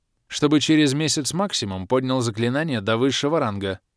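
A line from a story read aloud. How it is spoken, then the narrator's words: Dry command. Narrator (Russian): сухо распорядилась черная баронесса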